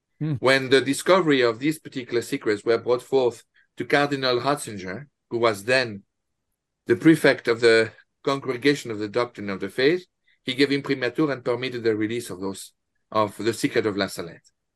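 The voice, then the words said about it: Heavy French accent. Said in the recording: “this ghastly, heavy French accent”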